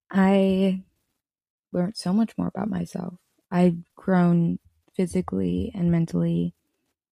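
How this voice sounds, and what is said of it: Voice sounds off, unsteady. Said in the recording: “my voice is all funky. I like, it's like on and off today.”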